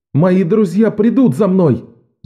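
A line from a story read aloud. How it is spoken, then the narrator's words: Young man shouting. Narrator (Russian): закричал юноша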